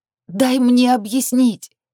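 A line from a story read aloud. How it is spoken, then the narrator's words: Pleading. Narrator (Russian): взмолилась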